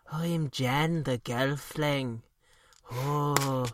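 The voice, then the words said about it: Deliberately bad Irish accent. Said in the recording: “putting on a very bad Irish accent. ... He sounds like this.”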